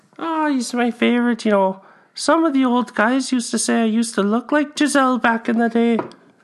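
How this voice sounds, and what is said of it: Character voice with accent. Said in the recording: “Too tough with that accent, eh?”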